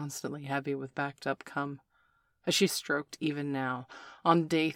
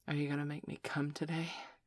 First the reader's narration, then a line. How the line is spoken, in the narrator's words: panted almost breathlessly